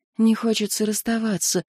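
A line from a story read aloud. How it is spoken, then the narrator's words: Quiet confession. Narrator (Russian): призналась негромко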